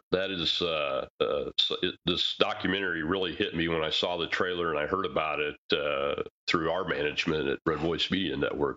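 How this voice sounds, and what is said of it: Emotional, choked-up voice. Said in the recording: “my voice getting a little emotional”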